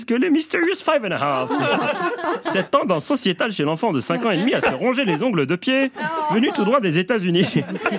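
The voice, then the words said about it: Poor imitation of a voice. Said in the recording (French): “piètre imitation”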